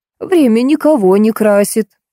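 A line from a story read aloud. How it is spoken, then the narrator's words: Sighing. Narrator (Russian): вздохнула Зинаида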